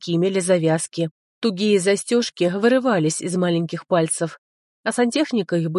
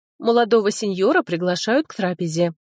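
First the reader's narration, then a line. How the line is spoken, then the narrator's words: Plain. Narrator (Russian): сказала она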